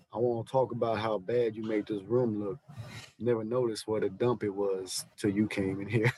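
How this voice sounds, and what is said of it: Forrest Gump character voice. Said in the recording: “doing my Forrest Gump voice.”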